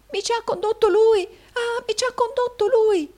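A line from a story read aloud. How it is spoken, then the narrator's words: Exclaiming. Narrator (Italian): esclamò Smike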